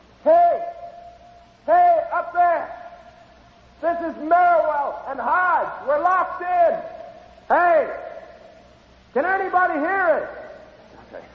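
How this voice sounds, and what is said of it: Yelling loudly for help. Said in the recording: “I feel sort of foolish yelling into an empty pipe like this... Keep yelling”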